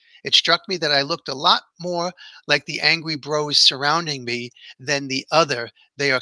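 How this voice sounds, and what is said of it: Usual voice. Nothing is said of it.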